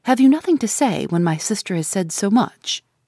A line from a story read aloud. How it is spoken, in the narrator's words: I interposed sharply